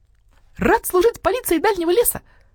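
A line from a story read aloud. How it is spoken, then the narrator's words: Cheerful young bird reporting. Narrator (Russian): весело рапортовал скворчонок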